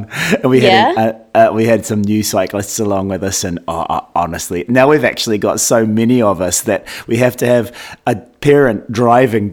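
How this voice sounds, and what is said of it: Weakened, nearly lost voice. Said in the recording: “My voice is sounding a little bit weakened because I did 10 jumps to treble with the Tri Club this afternoon, and it involves me screaming jump many times, and so I've almost lost my voice”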